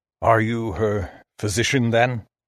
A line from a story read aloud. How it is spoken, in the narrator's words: His voice sounded strange, dry and old